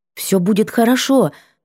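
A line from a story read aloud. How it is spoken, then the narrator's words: Mumbled through stiff lips. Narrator (Russian): пробормотала в ответ непослушными губами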